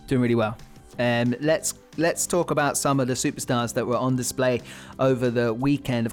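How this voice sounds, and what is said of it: Voice sounds sick, under the weather. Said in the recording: “you might tell from my voice that I'm a little bit under the weather”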